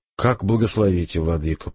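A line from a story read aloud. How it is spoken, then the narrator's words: Meek sigh. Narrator (Russian): покорно вздохнул Александр Павлович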